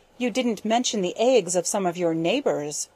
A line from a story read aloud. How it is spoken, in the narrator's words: said she sharply